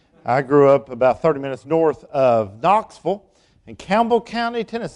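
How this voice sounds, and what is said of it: East Tennessee Southern accent. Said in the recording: “I grew up in East Tennessee. You'll be able to figure that out by my accent.”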